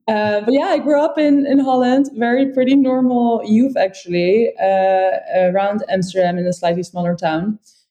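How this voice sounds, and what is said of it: Dutch accent with German tinge. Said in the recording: “I'm Dutch, so that's why I have this great accent. Michael's German, so I have some German accent mixed in as well.”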